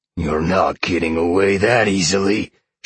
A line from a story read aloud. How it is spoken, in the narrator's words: Sean roared angrily